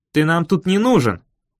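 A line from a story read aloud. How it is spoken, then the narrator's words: Tense near-bark. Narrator (Russian): Почти рявкнул Дэйви, очень напряженный голос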